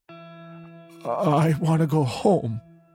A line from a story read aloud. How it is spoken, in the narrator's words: he says in a choked voice, deep and husky sobs following